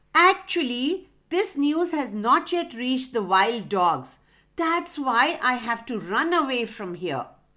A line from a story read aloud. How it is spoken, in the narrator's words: He screamed